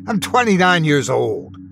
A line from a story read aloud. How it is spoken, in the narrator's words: He bit back the urge to scream